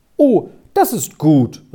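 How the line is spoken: Relieved exclamation. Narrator (German): rief es schon wieder ganz erleichtert aus

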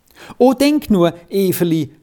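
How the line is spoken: Joyful exclamation. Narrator (German): rief er in strahlender Freude aus

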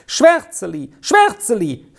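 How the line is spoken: Child calling repeatedly. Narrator (German): rief das Kind einmal ums andere

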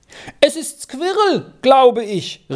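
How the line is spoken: Calling upward. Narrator (German): rief Arthur hinauf

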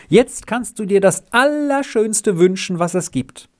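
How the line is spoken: Called out. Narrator (German): rief sie

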